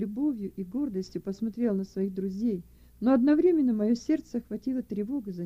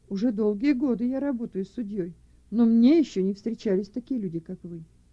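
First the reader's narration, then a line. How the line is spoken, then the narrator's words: Sighing judge. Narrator (Russian): Судья громко вздохнул и, покачивая головой, сказал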